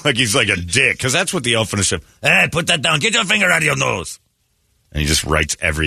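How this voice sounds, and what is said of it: Usual voice. Nothing is said of it.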